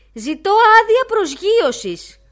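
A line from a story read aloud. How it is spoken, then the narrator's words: Kite's shout. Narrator (Greek): φώναξε ο χαρταετός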